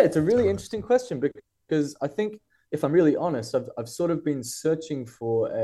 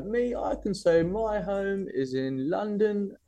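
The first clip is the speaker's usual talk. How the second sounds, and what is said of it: Terrible put-on London accent. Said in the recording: “It's a probably terrible London accent. ... No, it is. It's a really terrible London.”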